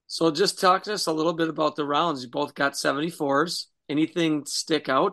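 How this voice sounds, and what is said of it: Hoarse, fading voice. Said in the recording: “I'm kind of losing my voice here.”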